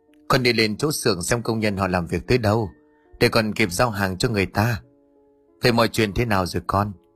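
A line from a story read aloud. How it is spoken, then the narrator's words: Sighing reply. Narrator (Vietnamese): Toàn thở dài đáp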